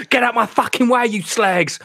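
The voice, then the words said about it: Put-on East End London accent. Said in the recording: “The accent's coming out. We're on the East End.”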